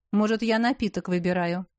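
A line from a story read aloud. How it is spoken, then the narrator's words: Snorting. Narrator (Russian): фыркнул Дарий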